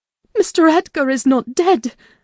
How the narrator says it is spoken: gasped

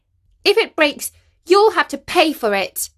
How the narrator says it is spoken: snapped the girl

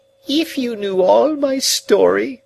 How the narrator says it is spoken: she pleaded

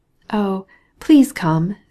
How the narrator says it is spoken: said Dolly

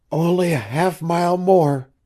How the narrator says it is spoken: panted the girl

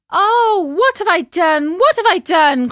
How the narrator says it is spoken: cried Pinocchio

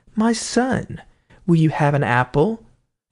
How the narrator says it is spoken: made her say kindly to him

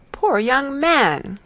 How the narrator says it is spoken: cried Mrs

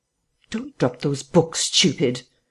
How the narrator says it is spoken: said the voice sharply

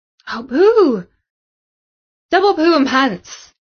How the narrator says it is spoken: exclaimed Samantha, because that news just about rounded off the worst Friday ever for her

